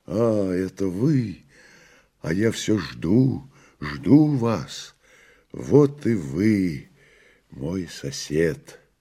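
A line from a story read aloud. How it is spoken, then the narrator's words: Joyful. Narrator (Russian): сказал радостно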